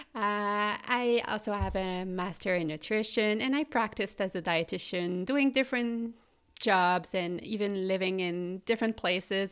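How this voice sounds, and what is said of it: Quebec French-Canadian accent. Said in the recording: “I studied in Quebec City, which is the French-speaking province of Canada, in case you're wondering where my accent is coming from.”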